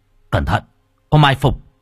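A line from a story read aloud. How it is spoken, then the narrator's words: Shout. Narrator (Vietnamese): Hoàng Kính quát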